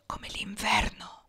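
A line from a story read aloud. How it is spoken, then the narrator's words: Whispered. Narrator (Italian): sussurrò Sabrina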